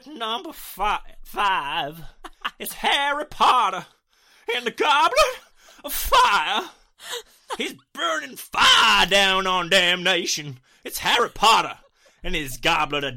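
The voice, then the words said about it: Put-on preacher accent. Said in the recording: “preacher accent.”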